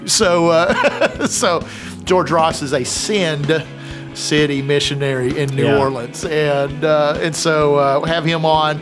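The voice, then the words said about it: Southern American accent. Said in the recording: “my Southern accent does not always enunciate like my mouth wants it to”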